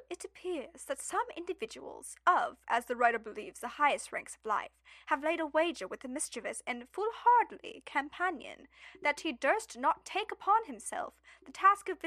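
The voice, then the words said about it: Put-on proper British accent. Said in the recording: “Now I have to pick like an accent ... Can I do, like, British? ... You should just sound a little bit, like, proper. Like, not too much. ... That's too Australian”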